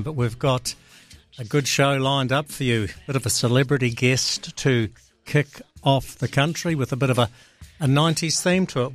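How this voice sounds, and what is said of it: Hoarse, failing voice. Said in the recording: “Losing my voice early on in the show today, that is not a good sign”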